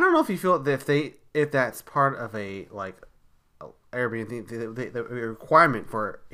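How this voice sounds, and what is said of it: Usual voice. Nothing is said of it.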